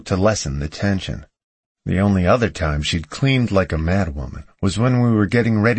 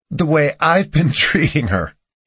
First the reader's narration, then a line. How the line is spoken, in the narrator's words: she laughed sarcastically